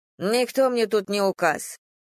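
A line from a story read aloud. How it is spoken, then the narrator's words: Grumbled. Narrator (Russian): буркнула тетка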